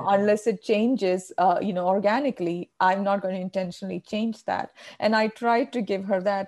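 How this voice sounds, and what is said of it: Indian English accent. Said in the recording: “I still hold on to my Indian accent.”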